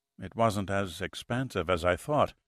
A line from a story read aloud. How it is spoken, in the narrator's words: murmured sheepishly